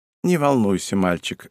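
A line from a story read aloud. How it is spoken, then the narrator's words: Sighing. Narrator (Russian): вздохнула Атарашики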